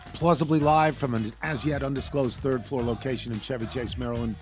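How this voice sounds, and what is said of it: Strained, nearly lost voice. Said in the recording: “you can hear it in my voice. I'm done. ... I don't have a voice.”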